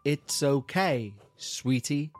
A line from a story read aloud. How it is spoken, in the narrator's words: It then slowly spelt out